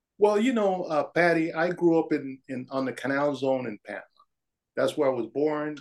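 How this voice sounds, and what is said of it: Slight foreign accent. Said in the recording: “there's a little hint of an accent. You're not originally from the Twin Cities.”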